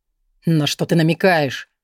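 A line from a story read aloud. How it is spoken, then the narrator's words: Younger one growling. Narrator (Russian): прорычал младший Лабриан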